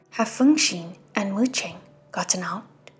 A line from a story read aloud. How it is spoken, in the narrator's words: Xie-Lian asked